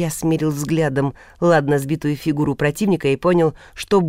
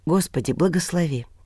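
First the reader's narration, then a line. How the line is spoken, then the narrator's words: Whispered. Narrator (Russian): прошептал Илья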